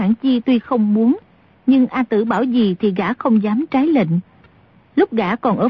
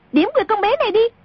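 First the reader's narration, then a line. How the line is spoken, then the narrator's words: Sudden shout. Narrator (Vietnamese): A Tử bỗng quát lên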